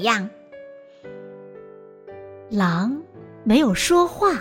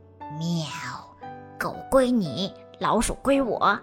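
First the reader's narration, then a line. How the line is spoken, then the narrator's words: Quiet. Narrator (Chinese): 猫小声的说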